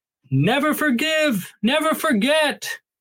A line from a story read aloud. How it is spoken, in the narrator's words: voice screaming down the corridor